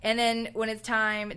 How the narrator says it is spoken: Jamie yells

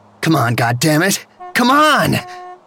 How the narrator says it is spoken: he yelled

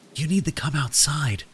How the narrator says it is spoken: Mackenzie whispered, and she sounded terrified

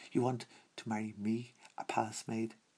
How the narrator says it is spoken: Peg gasped

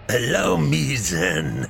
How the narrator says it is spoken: the Soviet said with a sadistic sneer

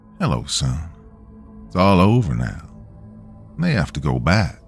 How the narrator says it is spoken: he said in his calm southern drawl

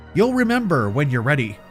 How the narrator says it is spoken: they said

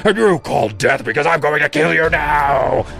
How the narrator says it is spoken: he roared

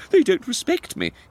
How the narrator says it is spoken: he sobbed

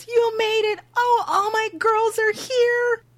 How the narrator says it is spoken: cries

